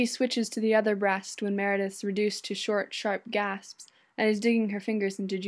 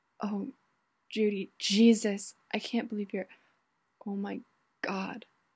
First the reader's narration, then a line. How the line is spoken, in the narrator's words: Meredith whispering